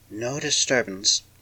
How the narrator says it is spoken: it whispered

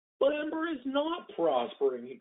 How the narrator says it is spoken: he cried

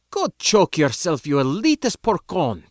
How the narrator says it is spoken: the same girl spat

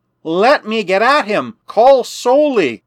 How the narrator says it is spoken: cried Protexa to Mark and the professor

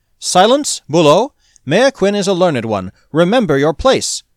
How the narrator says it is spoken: snapped Dostev

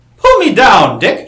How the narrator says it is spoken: she called, laughing gaily

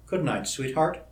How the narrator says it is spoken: murmured

